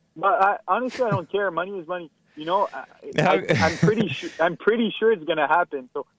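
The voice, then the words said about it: Slight French-Canadian accent. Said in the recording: “you have some type of an accent ... that's just my bad English. Because I'm from Montreal ... French ... and English”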